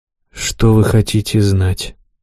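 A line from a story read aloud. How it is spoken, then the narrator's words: Hollow, muffled question. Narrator (Russian): глухо спросил разбойник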